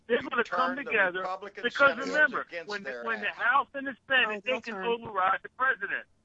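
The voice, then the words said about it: Yelling, loud agitated speech. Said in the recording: “I'm yelling.”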